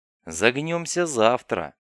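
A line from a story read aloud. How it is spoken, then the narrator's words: Scout's dismissive snort. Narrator (Russian): хмыкнул скаут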